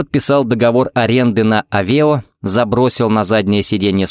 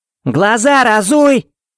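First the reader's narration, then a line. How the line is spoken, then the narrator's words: Shouted. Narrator (Russian): крикнула она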